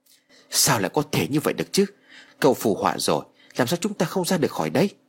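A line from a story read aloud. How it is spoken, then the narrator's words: Terrified, despairing question. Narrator (Vietnamese): Tên béo tỏ ra vô cùng sợ hãi hỏi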